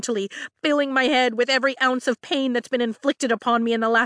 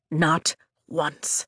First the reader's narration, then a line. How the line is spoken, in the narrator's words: he whispers